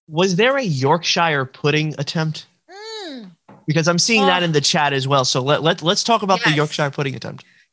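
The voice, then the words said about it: New York accent. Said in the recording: “My New York accent makes everything just sound atrocious”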